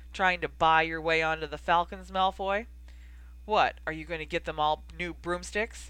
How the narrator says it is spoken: He laughed harshly

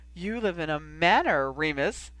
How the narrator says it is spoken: enthused teasingly

